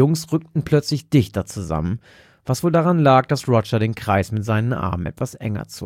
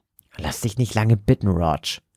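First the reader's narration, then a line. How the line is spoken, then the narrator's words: Hissed. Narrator (German): zischte Joseph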